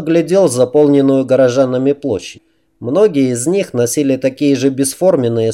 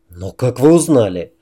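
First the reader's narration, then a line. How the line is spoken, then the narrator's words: Irritated question. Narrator (Russian): раздраженно спросил Грейсон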